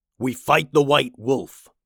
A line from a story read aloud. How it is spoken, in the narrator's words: growled Pilsen